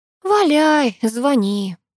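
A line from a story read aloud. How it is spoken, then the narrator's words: Sighing. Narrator (Russian): вздохнула я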